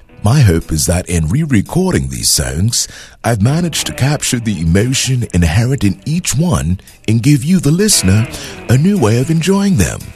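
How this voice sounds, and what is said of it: Poor put-on British accent. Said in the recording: “in his own words and British accent ... That was a terrible accent”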